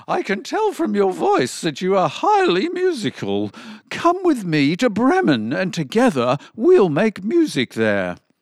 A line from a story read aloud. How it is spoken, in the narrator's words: the donkey exclaimed